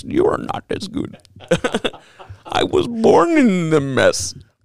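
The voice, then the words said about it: Imitates Bane movie villain voice. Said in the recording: “put on the Bane voice”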